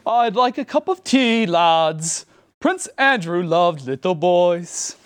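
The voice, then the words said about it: Sung attempt at British accent. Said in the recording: “read this phrase in your best British accent ... I don't know why you sang that”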